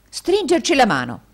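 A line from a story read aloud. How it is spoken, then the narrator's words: Jovial exclamation. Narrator (Italian): esclamò il gioviale indigeno degli Yorkshire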